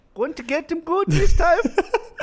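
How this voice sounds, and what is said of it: Put-on Swedish accent, sounds Indian. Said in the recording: “Is that your Swedish accent? ... Dangerously close to an Indian accent”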